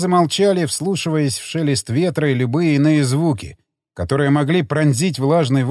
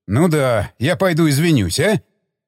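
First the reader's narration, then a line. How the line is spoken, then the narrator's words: Irritated snap. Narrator (Russian): Раздраженно бросил Стечкин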